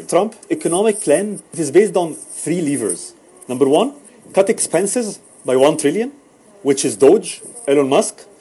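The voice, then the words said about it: Thick accent. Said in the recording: “this guy's accent is pretty thick”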